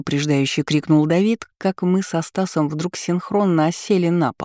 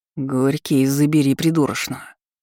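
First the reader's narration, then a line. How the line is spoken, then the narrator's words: Menacing, through clenched teeth. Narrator (Russian): угрожающе процедил Стас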